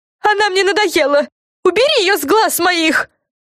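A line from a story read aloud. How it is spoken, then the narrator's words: Screamed again. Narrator (Russian): Снова завопила Френ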